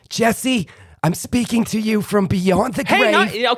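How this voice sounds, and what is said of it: Exaggerated old Jewish lady accent. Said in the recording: “Joan Rivers ... insert Jewish old lady ... you were heavy on the accent ... she does have strong accent. I'm overdoing it. I'm exaggerating ... you were a little cartoony”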